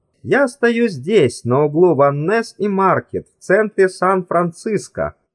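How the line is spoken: Pleasant voice. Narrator (Russian): приятным голосом говорил Брискин

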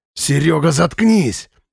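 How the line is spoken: Bark. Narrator (Russian): рявкнул Слава

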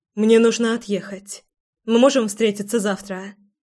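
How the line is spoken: Sharp, depressed undertone. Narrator (Russian): спрашиваю достаточно резко, не замечая подавленности в голосе

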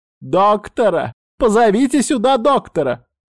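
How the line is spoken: Shouting. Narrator (Russian): кричала Саманта

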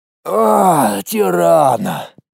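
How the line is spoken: Sighing. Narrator (Russian): вздохнул Колян

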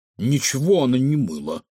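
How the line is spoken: Snorting. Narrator (Russian): фыркнул Кефир

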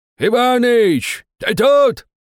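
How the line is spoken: Old man shouting. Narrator (Russian): кричал дед Макар

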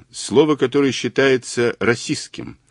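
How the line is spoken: Dry female statement. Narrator (Russian): сухо сообщила она

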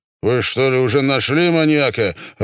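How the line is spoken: Irritated interruption. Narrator (Russian): раздраженно перебил Панасенко

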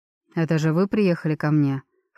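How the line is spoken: Short laugh. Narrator (Russian): хохотнул Том

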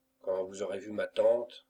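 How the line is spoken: Plain. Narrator (French): dit Émilie

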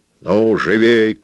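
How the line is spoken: Shout from steps. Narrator (Russian): крикнул ему со ступенек Пабло

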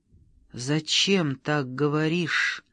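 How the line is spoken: Muffled mutter. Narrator (Russian): глухо пробормотала

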